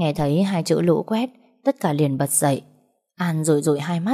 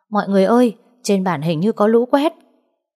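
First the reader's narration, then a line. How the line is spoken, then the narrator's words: Booming loud voice. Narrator (Vietnamese): A Lúa nói bằng cái giọng oang oang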